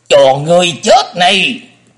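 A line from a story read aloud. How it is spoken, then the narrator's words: Thunderous roar. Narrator (Vietnamese): Thủ trưởng gầm vang một tiếng động trời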